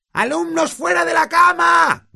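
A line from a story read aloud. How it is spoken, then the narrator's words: Shouted. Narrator (Spanish): gritó Peeves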